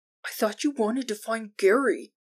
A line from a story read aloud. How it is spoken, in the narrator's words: Jordan leaned in and whispered